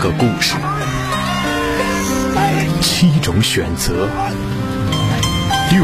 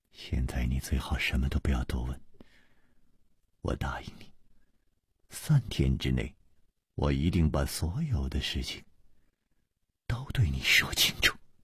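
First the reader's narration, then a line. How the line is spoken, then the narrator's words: Gentle voice. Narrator (Chinese): 楚留香柔声说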